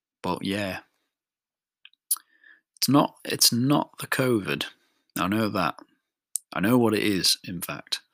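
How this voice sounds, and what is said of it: Voice sounds ill. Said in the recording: “Don't know if you've been able to hear my voice, but I'm slightly ill.”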